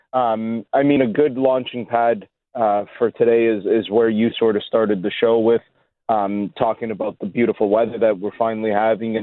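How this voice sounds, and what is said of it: Hoarse, worn-out voice. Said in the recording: “my voice is a little shot from a lot of talking this week”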